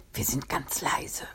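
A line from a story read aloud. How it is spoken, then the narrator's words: Group whispering. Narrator (German): flüsterten sie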